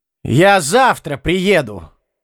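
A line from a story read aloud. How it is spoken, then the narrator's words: Shout from another room. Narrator (Russian): крикнул он из передней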